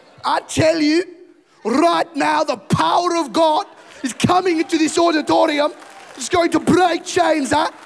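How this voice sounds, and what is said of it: Put-on South African preacher accent. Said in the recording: “you've got to be South African”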